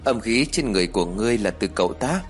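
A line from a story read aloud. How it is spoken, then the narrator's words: Smiling, calm. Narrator (Vietnamese): mặt vẫn còn mỉm cười như cũ rồi nói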